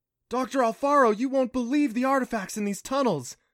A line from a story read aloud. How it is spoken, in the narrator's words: Clancy exclaimed